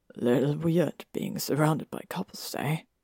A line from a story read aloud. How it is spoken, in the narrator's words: Greg said with a sigh